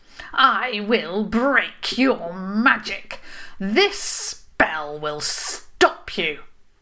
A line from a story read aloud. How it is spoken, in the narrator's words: she proclaimed